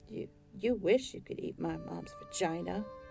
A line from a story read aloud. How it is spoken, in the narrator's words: Dahmer muttered to the floor